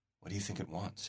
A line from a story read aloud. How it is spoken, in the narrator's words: his sister whispers